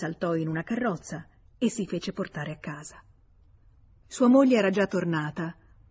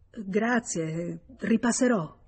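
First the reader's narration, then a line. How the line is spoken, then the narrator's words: Stammered, confused. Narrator (Italian): Senza capir ciò che stava dicendo, balbettò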